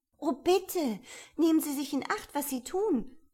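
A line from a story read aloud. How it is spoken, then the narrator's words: Fearful anxious cry. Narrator (German): rief Alice, die in wahrer Herzensangst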